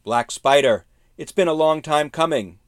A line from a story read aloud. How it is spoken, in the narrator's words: Lee shouted